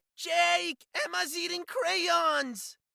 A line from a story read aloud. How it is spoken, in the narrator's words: Bella wailed